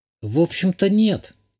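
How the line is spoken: Uncertain. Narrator (Russian): неуверенно ответила та

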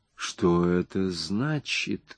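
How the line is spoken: Amazed whisper. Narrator (Russian): прошептал Рэг, с изумлением

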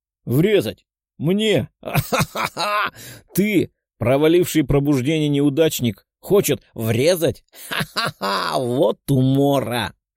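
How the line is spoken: Belly laugh. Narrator (Russian): Рассмеялся коротышка, держась за живот

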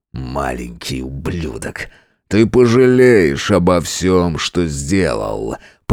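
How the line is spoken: Growl. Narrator (Russian): прорычал он

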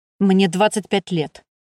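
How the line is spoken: Cold statement. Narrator (Russian): холодно произнес Скей

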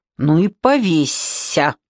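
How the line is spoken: Spiteful. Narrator (Russian): злобно пожелал Миллер

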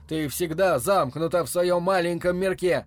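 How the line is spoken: Almost shouting. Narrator (Russian): Теперь он уже почти кричал

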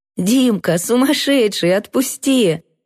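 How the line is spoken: Laughing. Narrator (Russian): Я засмеялась

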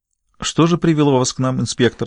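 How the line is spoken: Courteous tone. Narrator (Russian): спросила король любезным тоном

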